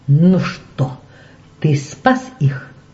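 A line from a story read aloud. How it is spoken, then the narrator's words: Hoarse sarcastic whisper. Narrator (Russian): хриплым, язвительным шепотом сказал он на ухо Майклу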